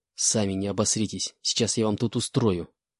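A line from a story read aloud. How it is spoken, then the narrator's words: Furious hiss through teeth. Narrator (Russian): прошипел я, скрипя зубами от накатившего приступа ярости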